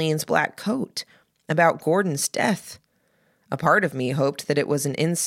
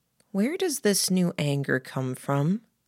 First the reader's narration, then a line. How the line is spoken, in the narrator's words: I murmured